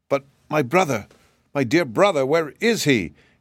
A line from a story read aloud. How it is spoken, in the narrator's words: inquired Shaggy anxiously